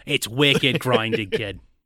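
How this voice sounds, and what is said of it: Put-on Boston accent. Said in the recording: “I think I'm better at a Boston accent than I am in English ... they hate the Boston accent ... It is grinding”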